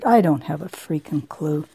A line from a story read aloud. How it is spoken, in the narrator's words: He snorted and muttered